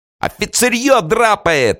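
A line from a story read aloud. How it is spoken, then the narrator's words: Yelling from behind. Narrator (Russian): орали сзади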